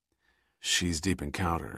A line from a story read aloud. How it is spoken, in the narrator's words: he informed Giordino quietly